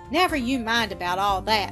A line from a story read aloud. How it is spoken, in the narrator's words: laughed Mrs